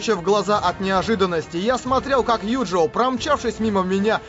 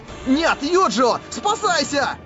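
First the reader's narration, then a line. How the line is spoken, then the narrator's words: Yelling. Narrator (Russian): Забыв на мгновение о боли, я заорал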